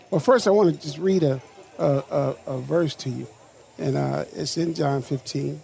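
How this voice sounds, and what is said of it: Slightly cranky, worn voice. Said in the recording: “I had dialysis today. My voice is a little cranky.”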